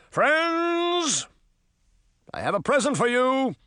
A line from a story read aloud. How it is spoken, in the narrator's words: Oberon shouted